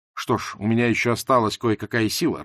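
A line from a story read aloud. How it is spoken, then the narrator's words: Growling. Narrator (Russian): рычал он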